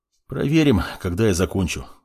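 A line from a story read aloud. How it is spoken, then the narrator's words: Sigh. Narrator (Russian): вздохнул он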